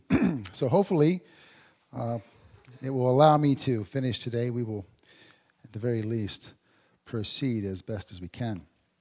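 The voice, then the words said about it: Weak voice. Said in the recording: “my voice is still a little bit weak”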